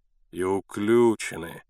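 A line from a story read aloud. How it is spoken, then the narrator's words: Sighed. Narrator (Russian): вздохнул Кондратий Степанович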